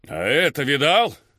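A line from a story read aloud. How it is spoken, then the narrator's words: Shouting from behind. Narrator (Russian): кричал один из них позади меня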